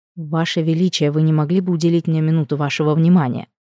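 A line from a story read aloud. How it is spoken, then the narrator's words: Soft, awkward, anxious voice. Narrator (Russian): Мягко, неловко, с ощутимой тревогой в голосе обратился ко мне Галец и Браушт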